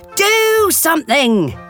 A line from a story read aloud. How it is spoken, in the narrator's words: Captain Patch roared